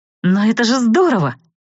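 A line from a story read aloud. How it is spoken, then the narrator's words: Excited exclamation, cut short. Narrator (Russian): воскликнула я возбужденно, но тотчас осеклась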